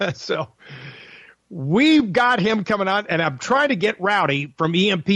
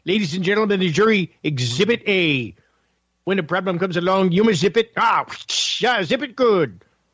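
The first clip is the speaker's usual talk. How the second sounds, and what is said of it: Dr. Evil character voice. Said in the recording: “that's Dr. Evil ... Mike Myers, of course ... impersonation with Mike Myers”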